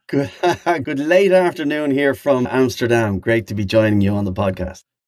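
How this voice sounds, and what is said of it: Dutch accent. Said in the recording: “Listen to that Dutch accent there.”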